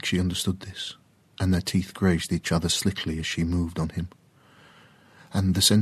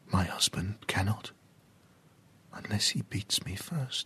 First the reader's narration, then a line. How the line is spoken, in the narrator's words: she whispered into his mouth